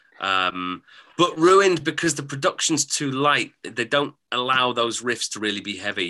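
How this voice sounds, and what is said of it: English accent, RP-like drawl. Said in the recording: “you have the most amazing English RP accent ... I've got a strange drawl that's a bit northern and a bit southern ... You have what we consider to be the English accent over here”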